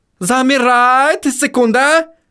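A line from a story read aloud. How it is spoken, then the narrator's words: Sharp shout. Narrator (Russian): выкрикнул Отто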